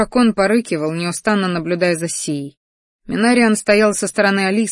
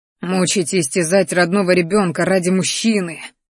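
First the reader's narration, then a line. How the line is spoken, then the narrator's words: Angry growl. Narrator (Russian): рычал злобно Рахтар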